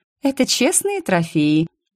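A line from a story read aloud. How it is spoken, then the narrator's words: Snide. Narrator (Russian): ехидно сообщила ему я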